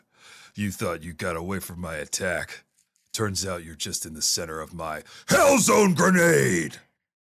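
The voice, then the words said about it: Shouted Piccolo character voice. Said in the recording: “Can you please shout Hell Zone Grenade in your Piccolo voice for me?”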